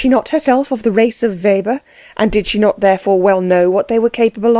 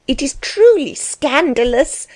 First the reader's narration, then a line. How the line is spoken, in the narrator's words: cried his wife, greatly excited